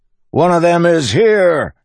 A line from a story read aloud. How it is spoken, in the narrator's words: he shouted